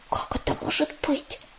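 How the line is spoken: Fervent whisper in ear. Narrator (Russian): горячо зашептала она на ухо сестре

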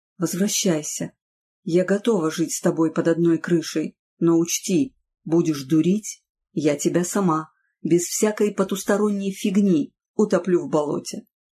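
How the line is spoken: Whispering in ear. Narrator (Russian): на ухо ему прошептала

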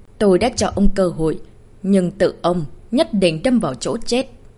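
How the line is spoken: Cold flat voice. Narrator (Vietnamese): Nhất Bạch Sơn Tịch lạnh lùng nói

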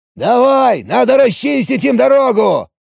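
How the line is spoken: Shouted. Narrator (Russian): прокричал Ориджинал

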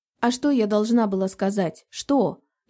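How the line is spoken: Nearly shouting. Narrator (Russian): Лиза почти перешла на крик

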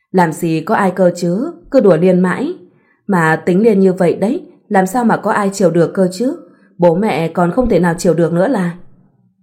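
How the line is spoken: Smiling. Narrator (Vietnamese): Liên cũng chỉ mỉm cười và nói lại

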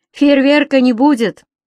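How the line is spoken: Laughing. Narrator (Russian): засмеялся

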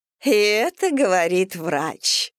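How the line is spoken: Laughing. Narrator (Russian): рассмеялась Елизавета Витальевна

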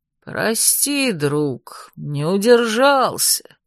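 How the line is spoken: Guilty drawl. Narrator (Russian): виновато протянул он

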